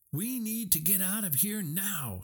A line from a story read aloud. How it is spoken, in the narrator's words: Hiro shouted